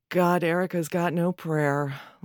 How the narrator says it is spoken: Lena sighs

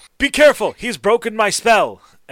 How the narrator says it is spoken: Chet is going to holler

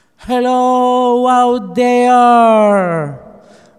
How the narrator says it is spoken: Amanda yelled into the empty church parking lot

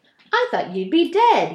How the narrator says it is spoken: he said

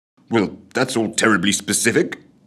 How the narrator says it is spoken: spluttered Scrooge

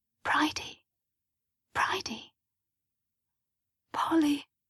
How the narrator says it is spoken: she whispered back

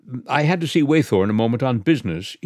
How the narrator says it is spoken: he stammered, brick red from chin to nape

